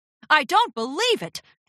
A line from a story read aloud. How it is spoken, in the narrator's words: the announcer shouted into the microphone